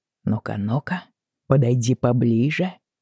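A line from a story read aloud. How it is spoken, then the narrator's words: Muttering. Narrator (Russian): бормотал Джейми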